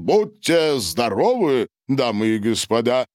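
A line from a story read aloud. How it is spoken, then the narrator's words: Loud proclamation. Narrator (Russian): Гарин громко провозгласил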